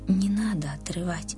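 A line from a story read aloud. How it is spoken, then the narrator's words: Whisper in ear. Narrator (Russian): словно шепнул кто-то Риме на ухо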